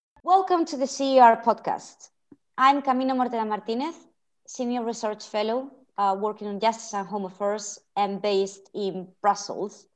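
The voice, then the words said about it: Spanish accent. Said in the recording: “as you can hear by my accent, I'm also the CER's resident Spaniard”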